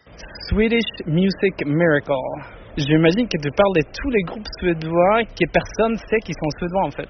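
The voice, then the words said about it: Swedish accent speaking French. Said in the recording (French): “Avec son plus bel accent”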